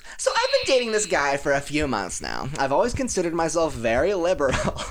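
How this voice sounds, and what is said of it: Put-on girl's voice. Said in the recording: “give this a girl voice.”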